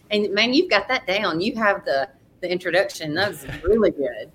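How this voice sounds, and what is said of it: Strong Southern US accent. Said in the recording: “Corinth, Mississippi. And I'm going to love this accent. I loved it. ... a strong accent”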